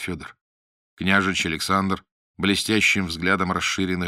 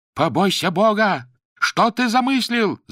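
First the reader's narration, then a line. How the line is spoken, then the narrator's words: Shout. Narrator (Russian): закричал Ворстанов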